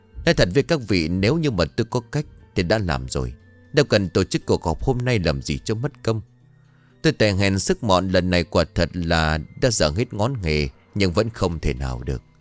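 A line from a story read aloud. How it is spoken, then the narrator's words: Sighing. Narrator (Vietnamese): Thầy Khảm thở dài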